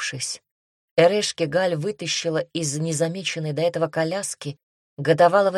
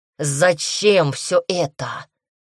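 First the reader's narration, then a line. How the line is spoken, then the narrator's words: Angry question. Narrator (Russian): зло спросил Ксандр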